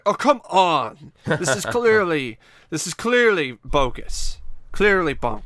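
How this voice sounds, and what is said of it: Robert Stack impression, Patrick Stewart-like. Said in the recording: “your impression of Robert Stack is like a semi like Patrick Stewart like infused version”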